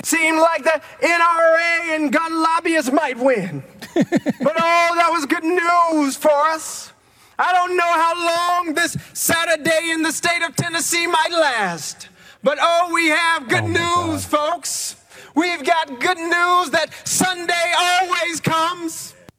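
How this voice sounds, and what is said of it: Put-on preacher accent like Martin Luther King. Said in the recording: “Where did this accent come from? Why is he trying to sound like Martin Luther King all of a sudden?”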